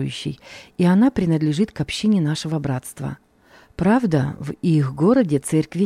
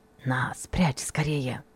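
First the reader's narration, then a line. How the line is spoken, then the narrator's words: Hurried whisper. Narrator (Russian): торопливо шепнул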